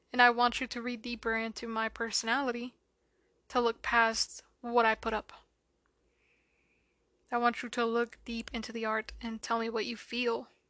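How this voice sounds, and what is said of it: Monotone, soothing, not sad voice. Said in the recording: “my voice is very, like, it's not sad ... it's not depressing ... I'm monotone, but it doesn't come out depressive ... I think it's very soothing”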